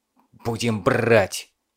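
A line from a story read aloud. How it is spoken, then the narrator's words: Irritated hiss. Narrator (Russian): прошипел Кузнецов, недовольный излишней болтливостью подчиненного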